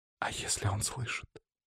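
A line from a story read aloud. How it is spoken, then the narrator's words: Near whisper. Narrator (Russian): спросила она почти шепотом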